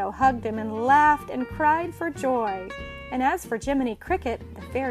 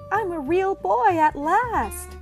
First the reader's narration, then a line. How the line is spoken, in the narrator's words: cried